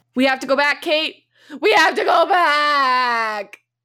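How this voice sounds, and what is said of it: Impression of a TV character. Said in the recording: “my impression of Jack.”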